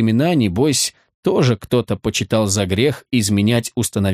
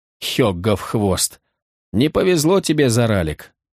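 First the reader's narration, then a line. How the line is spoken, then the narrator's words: Sighing. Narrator (Russian): вздохнул кто-то из ближников Винитара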